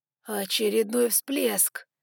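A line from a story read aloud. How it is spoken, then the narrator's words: Hoarse exhale. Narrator (Russian): хрипло выдохнул Ноа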